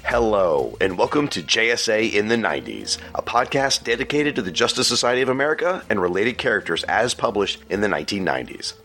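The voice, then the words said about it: Congested, head-cold voice. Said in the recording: “if my voice sounds like this, it means I either have a really bad head cold, or I've finally reached puberty.”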